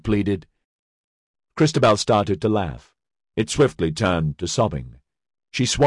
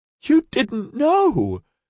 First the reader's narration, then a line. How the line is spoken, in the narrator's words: It was nearly a wail